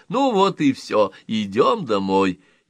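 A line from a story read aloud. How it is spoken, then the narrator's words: Loud speech. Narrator (Russian): громко говоря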